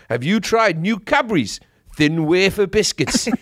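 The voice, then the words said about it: Put-on Geordie accent, commercial voiceover. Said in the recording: “People like the Geordie accent ... Geordie is from Newcastle ... that accent, for whatever reason, calms the English down ... It's very working class, but that's the voiceover for every single biscuit commercial is like this”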